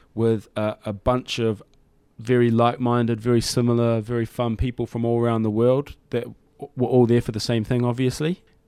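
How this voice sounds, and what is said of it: Strong New Zealand accent. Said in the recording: “you've retained that strong New Zealand accent of yours”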